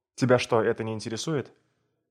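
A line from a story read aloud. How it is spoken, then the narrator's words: Commanding question. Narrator (Russian): он спросил властным тоном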